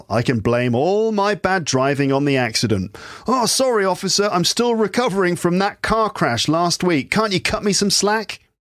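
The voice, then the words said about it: British accent. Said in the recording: “me saying that in my British accent”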